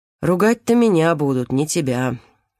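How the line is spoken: Sighing old woman. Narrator (Russian): вздохнула старуха

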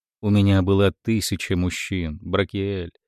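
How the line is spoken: Muffled, hollow. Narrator (Russian): сказала она глухо

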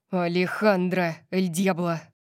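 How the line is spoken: Hiss. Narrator (Russian): прошипел Диего

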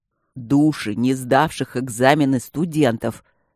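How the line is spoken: Sepulchral sung tone. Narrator (Russian): Гробовым голосом пропел первый камен

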